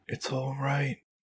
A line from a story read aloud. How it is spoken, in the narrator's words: Rachel whispered